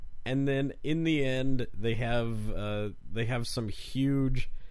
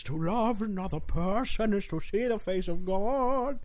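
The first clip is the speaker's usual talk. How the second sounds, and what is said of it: Imitates another person's voice. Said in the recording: “That's my Colm Wilkinson impression.”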